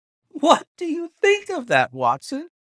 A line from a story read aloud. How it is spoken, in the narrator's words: cried Holmes in high glee